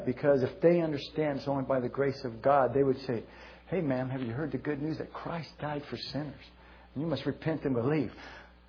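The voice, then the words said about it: Emotional, slightly breathless voice. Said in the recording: “I'm getting a little emotional here ... while I grasp my breath ... I get emotional about this”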